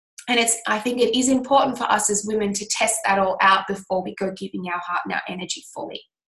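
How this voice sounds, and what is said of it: Scratchy, nasal voice from a cold. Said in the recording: “I've got a bit of a cold. ... So my voice is a bit scratchy and a bit nasally.”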